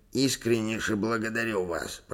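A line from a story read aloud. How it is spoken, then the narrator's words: Moved, mumbling. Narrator (Russian): пробормотал наш новый друг, явно растроганный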